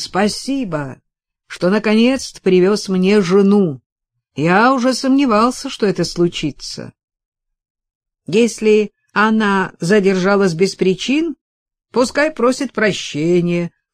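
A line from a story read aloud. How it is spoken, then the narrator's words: Deep bass reply. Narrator (Russian): пробасил в ответ бретонец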